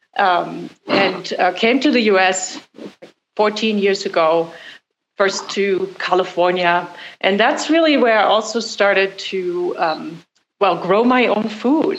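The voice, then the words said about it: Slight German accent. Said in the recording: “as you could probably hear, I have a little bit of an accent. So I was born in Germany”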